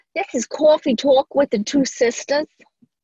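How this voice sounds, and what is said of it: Put-on New York-Texas accent. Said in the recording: “my New York accent ... mixed with Texas”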